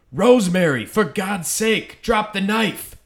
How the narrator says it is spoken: He was apparently delirious in the hospital and hallucinated scenes from the film and was said to have yelled

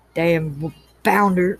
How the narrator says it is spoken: Blair muttered

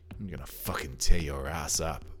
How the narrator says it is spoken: growled Dalton

